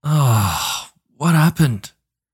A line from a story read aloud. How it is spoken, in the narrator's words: He slurred